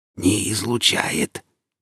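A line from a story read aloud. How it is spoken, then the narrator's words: Quiet, regained composure. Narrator (Russian): тихо проговорил нищий, уже справившийся с собой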